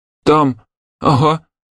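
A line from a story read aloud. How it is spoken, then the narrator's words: Embarrassed mumble. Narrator (Russian): месье Паскаль смущенно пробормотал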